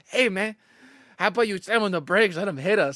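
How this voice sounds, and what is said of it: Mexican accent. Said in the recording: “like a Mexican in an accent.”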